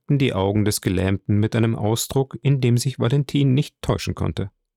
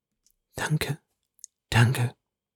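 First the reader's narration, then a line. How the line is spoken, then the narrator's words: Girl murmuring. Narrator (German): murmelte das Mädchen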